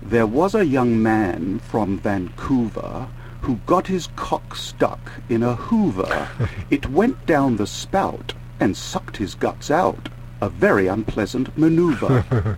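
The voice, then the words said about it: Put-on upper-class British accent. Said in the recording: “I'll put on my ruling class British accent”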